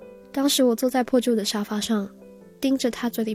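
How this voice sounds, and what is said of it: Usual voice. Nothing is said of it.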